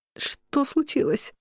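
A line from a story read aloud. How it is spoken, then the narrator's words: Forced out. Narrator (Russian): выдавила я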